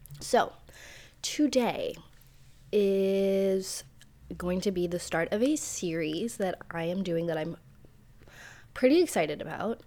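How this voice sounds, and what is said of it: Sick, unwell-sounding voice. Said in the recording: “You can probably hear in my voice, but I am unwell. I'm very unwell. I feel like garbage”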